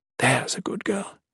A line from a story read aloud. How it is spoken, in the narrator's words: Mirel whispered